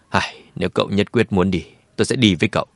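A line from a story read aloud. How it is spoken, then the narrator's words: Sighing. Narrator (Vietnamese): Lệ Trần thở dài nói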